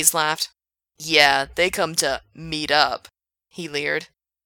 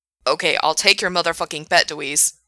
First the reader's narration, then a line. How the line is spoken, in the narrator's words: snarled Frank